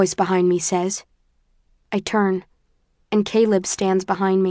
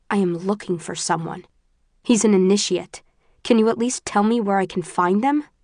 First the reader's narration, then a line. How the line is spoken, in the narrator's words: my voice is terse